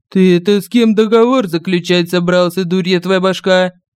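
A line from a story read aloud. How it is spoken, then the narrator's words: Barking shout. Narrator (Russian): рявкнул ангел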